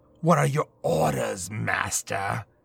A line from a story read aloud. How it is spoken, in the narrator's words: Alistair asked with a growl